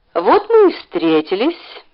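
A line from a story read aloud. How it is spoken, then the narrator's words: Cheerful. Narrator (Russian): весело сказал он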